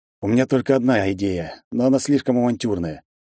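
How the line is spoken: Heavy sigh. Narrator (Russian): тяжело вздохнул я в ответ

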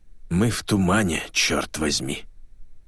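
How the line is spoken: Muffled cursing. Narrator (Russian): Машляк глухо выругался

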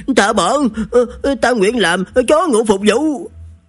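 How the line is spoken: Hurried cry, spirit. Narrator (Vietnamese): Quỷ thần vội vã kêu lên

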